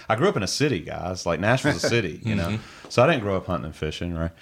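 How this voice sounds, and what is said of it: Southern American accent. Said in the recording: “I got this southern accent”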